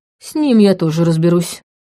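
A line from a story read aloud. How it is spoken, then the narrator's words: Man muttering through teeth. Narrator (Russian): процедил мужчина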